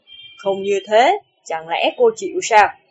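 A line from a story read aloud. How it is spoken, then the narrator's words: Cold. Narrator (Vietnamese): Lưu Trọng Thiên lạnh lùng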